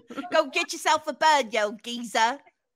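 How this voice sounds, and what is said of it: Exaggerated hammed-up British accent. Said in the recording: “British accent ... ham it up a little bit”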